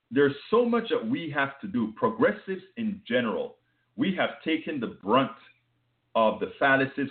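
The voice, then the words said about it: Foreign Panamanian accent. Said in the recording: “I have an accent that is foreign. I'm from Panama”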